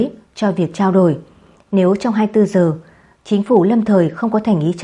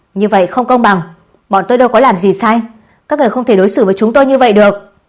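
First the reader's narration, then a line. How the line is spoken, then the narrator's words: Instinctive group shout. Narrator (Vietnamese): Phóng viên người Anh và 2 người phi công đều theo bản năng hét lên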